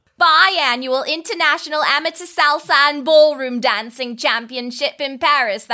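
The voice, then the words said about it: Imperfect put-on British accent. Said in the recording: “That was not perfect. That was not a perfect British accent, unfortunately.”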